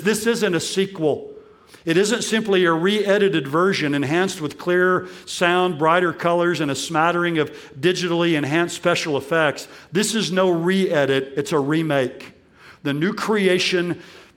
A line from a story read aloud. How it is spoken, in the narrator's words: he says